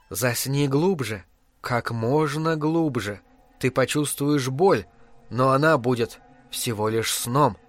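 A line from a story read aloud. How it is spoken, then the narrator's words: Whispered. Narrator (Russian): Энди прошептала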